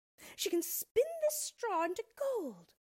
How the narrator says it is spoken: she exclaimed with a look of immense triumph

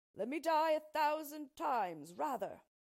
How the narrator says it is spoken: cried the unhappy king

